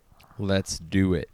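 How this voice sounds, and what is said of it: Deeper radio voice. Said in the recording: “Is that like your radio voice you got into, going a little bit deeper?”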